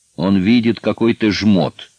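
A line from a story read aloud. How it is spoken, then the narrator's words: Angry. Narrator (Russian): сердито сказал Пашка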